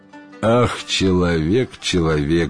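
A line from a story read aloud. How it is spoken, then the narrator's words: Sighing genies. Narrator (Russian): вздохнули джинны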